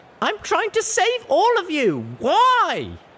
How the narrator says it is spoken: I screamed out at them

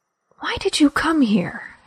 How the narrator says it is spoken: She whispered

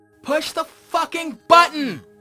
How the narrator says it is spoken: Cannonball yelled at me

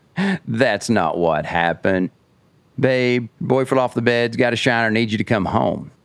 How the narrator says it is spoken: he gets this creepy laugh and he goes

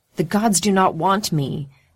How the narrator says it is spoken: Fallon cries with a madman's passion

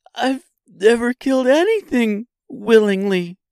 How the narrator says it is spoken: she sobbed

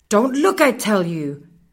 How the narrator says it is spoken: Muffin shouted

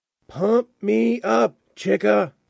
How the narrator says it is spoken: Alna shouted slash whispered

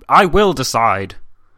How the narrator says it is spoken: Nicholas thus put on a brave face and replied in a rough tone

